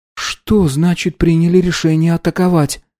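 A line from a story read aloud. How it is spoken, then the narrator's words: Uncertain question. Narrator (Russian): неуверенно спросила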